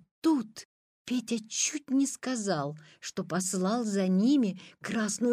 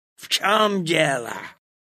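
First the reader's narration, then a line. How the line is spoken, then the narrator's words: Angry question. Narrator (Russian): злобно спросил он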